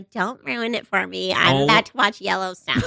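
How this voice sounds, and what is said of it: Flat, emotionless imitation of another person. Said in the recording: “that's a bad impression... Just all like right, no emotion in anything”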